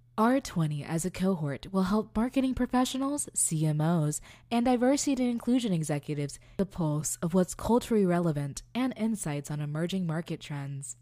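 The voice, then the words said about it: NPR radio announcer voice. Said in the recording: “let me slip into my NPR voice. ... And now, back to my regular voice.”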